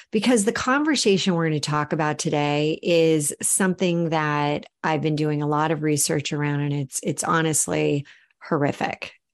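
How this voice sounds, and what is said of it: Subdued, low-energy voice. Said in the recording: “you may hear in my voice, I don't have that like woohoo energy coming your way”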